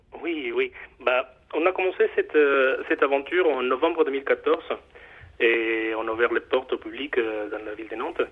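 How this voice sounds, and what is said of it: Mexican accent speaking French. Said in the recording (French): “comme, vous l'entendez un peu, mon accent, euh, moi je suis mexicain d'origine”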